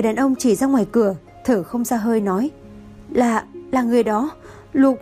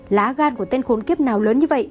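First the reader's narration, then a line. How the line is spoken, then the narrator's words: Fierce shout. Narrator (Vietnamese): Tang Cẩu hung ác quát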